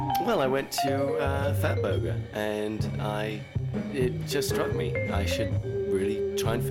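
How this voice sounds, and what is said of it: Usual voice. Nothing is said of it.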